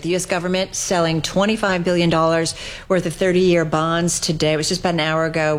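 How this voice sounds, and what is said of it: New Jersey accent. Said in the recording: “You sound like you're from New Jersey. ... a New Jersey accent.”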